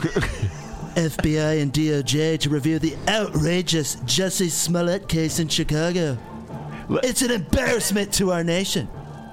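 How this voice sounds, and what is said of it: Imitates another person's voice. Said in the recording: “is a very good imitation... That's excellent. Yeah, that's so on point.”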